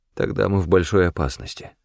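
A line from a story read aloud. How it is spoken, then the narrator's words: Mutter. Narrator (Russian): пробормотал я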